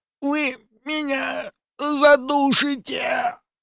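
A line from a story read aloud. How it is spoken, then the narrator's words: Barely audible wheeze. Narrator (Russian): Еле слышно прохрипел Ануфриев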